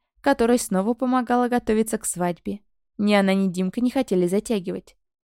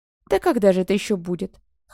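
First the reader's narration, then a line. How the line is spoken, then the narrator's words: Snorting raven. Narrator (Russian): хмыкнул ворон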